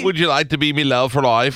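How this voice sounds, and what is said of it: Put-on old English accent. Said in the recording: “Merry English accent”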